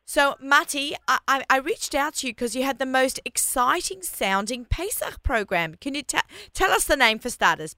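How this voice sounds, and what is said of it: Australian accent. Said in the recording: “my Australian accent ... I'm Australian. Yeah. Living in New York for 30 years. But I still have my accent.”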